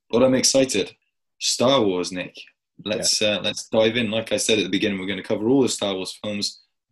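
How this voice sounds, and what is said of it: Unwell voice, pitch jumping high and low. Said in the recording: “I'm a bit under the weather again... My voice is up and down, but I feel like it's a bit higher and more high pitched on and off, uh, and very low sometimes.”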